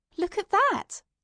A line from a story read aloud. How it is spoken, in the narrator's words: exclaimed